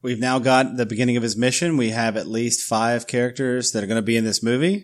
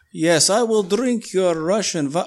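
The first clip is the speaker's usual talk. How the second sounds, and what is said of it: Bad put-on Russian accent. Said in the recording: “my really terrible impersonation ... Were you doing Rocky and Bullwinkle's Boris and Natasha there? Moose and Squirrel.”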